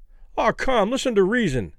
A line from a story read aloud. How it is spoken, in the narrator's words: Kelly pleaded